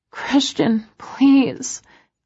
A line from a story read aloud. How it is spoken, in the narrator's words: whimper